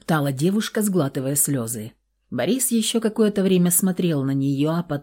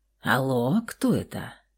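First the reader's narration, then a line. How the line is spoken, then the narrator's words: Hoarse purring voice. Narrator (Russian): Такой знакомый и почти забытый хриплый мурлыкающий голос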